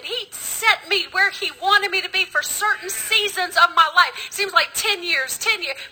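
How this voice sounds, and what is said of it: Mixed Southern US accent. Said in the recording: “I got the most messed up accent. People look at me and go, Where are you from? A little bit of Texas, a little bit of Louisiana, a little bit of North Carolina sprinkled in.”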